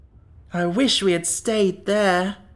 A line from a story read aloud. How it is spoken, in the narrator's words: moaned Jack